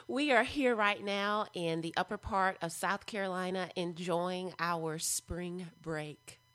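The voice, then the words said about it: Strong American Southern accent. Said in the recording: “you have such a southern accent.”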